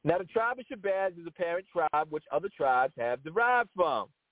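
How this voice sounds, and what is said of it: Imitates another person's voice, not very good. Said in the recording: “that's my best impression. It's not that good, but that was my best impression”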